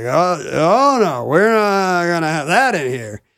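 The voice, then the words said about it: Imitates a drunk soldier. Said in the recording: “Great impression of a drunk soldier”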